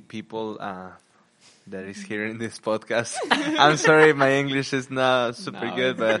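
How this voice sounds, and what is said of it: Mexican accent. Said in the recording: “Obviously from Mexico, if you can notice my Mexican accent.”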